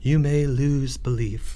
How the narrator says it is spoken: said the high priest quietly

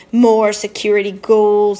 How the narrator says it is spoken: he moaned

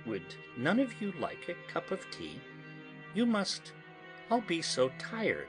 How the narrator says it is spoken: said sweetly

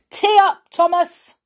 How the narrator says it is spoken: Dad shouted

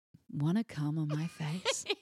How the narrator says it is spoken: say in a sultry voice I barely recognized

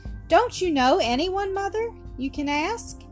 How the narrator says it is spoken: asked Tony anxiously

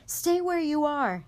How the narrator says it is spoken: Harry shouted

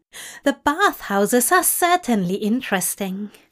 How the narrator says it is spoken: Aziraphale laughed

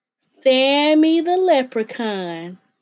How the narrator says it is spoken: Mark Katz taunted

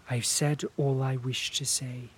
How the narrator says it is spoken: she added quietly

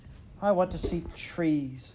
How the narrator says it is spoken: Carrie exclaimed

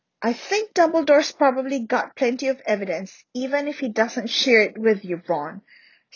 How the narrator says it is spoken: snapped Hermione

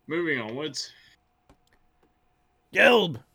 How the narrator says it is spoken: he bellowed

